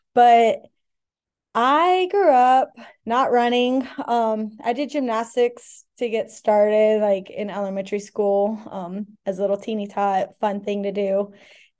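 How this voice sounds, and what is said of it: Hoarse, nearly lost voice. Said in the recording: “Excuse my voice as well. It is lost.”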